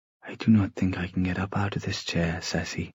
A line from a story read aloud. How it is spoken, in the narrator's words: he murmured